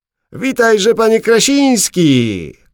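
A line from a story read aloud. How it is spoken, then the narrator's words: Calling out. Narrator (Polish): zawołał pierwszy z nich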